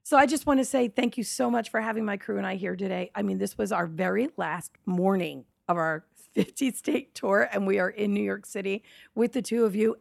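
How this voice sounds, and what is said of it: Hoarse voice. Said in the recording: “with my big puffy eyes and my hoarse voice”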